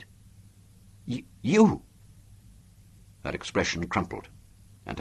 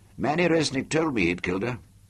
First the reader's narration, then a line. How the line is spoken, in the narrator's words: I said